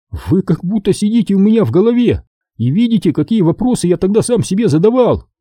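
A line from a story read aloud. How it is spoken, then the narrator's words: Joyful exclamation. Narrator (Russian): радостно воскликнул Чава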